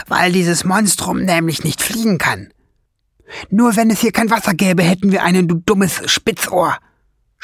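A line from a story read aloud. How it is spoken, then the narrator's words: Hissing. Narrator (German): zischte Schwefelfell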